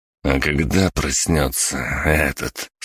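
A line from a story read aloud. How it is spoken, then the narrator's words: Through clenched teeth. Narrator (Russian): сквозь зубы процедил Дзен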